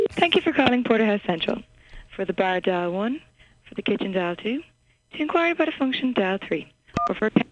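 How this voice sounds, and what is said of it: Irish accent, female voice. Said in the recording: “She also sounds very cute. ... Something about an accent. ... Irish accent.”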